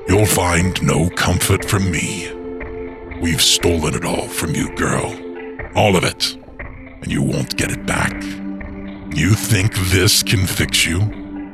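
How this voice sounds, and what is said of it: Hollow, sinister character voice. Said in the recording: “in a hollow voice”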